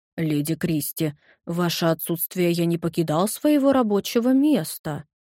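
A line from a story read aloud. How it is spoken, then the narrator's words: Mumbling. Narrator (Russian): пробормотал Жермен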